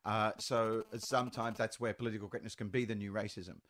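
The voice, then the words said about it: Aboriginal Australian accent with Irish blend. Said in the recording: “that's my accent... That's our accent. Our accent is a blend of Aboriginal and Irish.”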